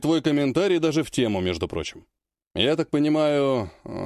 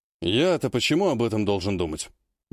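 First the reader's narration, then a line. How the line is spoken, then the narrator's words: Sigh. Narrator (Russian): вздохнул Владимир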